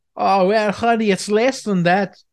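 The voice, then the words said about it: Unconvincing attempt at German accent. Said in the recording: “I don't know what accent I'm doing at this point, but ... it should be German, but that doesn't sound German to me.”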